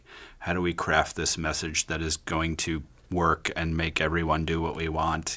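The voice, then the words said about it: Robotic voice. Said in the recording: “like a robot. That was my robot voice.”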